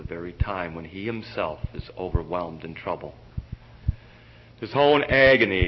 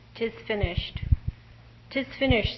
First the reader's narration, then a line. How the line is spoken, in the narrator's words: so the Savior cried